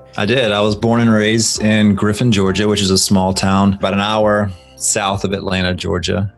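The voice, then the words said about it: Southern country Georgia accent. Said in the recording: “if you can't tell from my accent a little bit, definitely a country type town”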